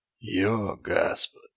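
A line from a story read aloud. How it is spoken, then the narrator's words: Low, hoarse, gritty whisper. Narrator (Russian): Голос был низким, хриплым и походил на шепот, которому примешали чуть-чуть песочка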